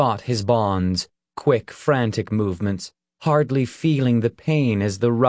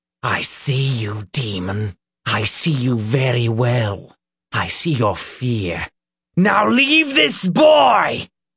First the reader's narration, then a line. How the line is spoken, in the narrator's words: he shouted